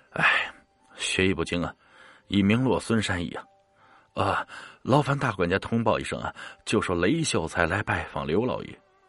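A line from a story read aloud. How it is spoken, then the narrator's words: Sighing lament. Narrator (Chinese): 雷秀才是唉声叹气的说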